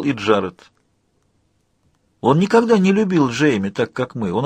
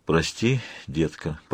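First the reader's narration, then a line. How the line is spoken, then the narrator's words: Muttered. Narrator (Russian): пробормотал Джеб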